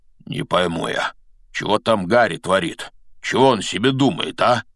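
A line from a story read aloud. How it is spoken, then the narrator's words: Muttered. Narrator (Russian): бормотал Хагрид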